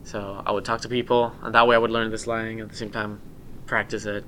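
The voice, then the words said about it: Speaks with a non-native accent. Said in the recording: “so many people tell me that I still have my accent, and I do”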